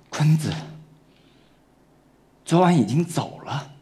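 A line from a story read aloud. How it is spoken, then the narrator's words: Hoarse voice. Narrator (Chinese): 她用沙哑的声音说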